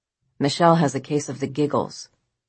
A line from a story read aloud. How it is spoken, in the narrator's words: At age 8, coolly and announced